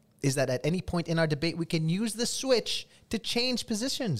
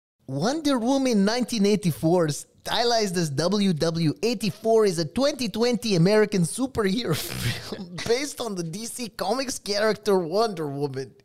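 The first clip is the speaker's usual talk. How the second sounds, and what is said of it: Strange hybrid Amazonian goddess accent. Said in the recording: “accent of an Amazonian goddess. Okay, in that strange hybrid that accent that they all have on that island”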